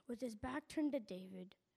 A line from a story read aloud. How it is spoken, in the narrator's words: Jonathan whispered quietly